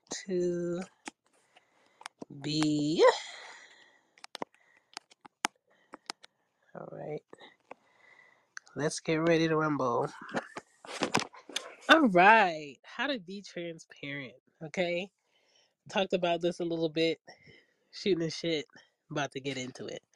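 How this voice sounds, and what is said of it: Stuffy, congested voice. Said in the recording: “I'm so stuffy right now.”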